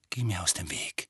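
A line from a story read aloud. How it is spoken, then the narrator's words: Quiet. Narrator (German): sagte Harry leise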